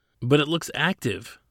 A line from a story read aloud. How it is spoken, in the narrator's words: said in a perplexed tone